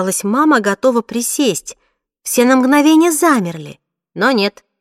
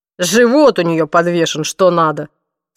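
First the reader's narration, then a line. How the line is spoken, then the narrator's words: Father's snort. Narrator (Russian): фыркнул папа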